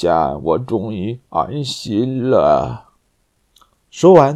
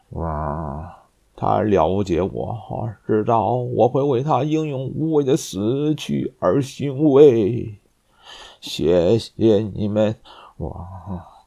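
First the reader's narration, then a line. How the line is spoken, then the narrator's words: Very old, tearful sigh. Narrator (Chinese): 卡尔已经十分衰老了，他含泪，叹息道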